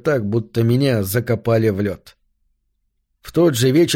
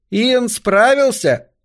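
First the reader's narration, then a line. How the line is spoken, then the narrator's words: Young woman shouting. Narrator (Russian): крикнула какая-то девица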